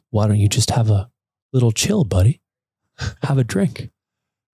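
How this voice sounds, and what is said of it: Soothing old-time hockey guy voice. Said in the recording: “he's got a really soothing voice ... Is that like old time hockey guy? ... It's kind of. That's what his voice sounds like.”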